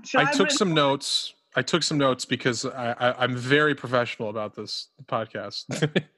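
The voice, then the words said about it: Sarcastic, dry delivery. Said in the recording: “That was sarcasm.”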